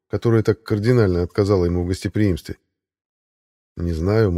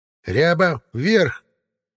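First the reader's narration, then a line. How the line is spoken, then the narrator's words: Barking shout. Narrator (Russian): гаркнула Баба-Яга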